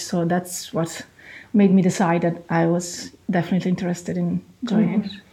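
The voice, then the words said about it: Lovely non-Irish foreign accent. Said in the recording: “your lovely accent ... that you're not from Ireland”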